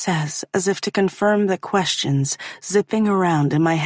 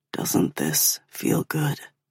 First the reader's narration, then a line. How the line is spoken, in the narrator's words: he murmurs against my mouth